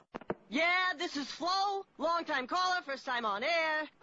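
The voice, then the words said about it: Sports talk radio caller voice. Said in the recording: “this is my impression of someone calling into Sports Talk Radio.”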